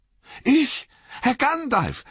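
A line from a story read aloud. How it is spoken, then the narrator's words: Called out. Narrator (German): rief Sam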